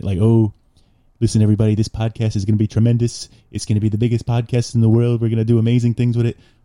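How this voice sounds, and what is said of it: Poor imitation of another person's voice. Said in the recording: “my Trump impression is so shitty. It's so bad.”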